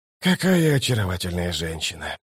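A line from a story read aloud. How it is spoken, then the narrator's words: Soft gasp. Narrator (Russian): тихо охнул он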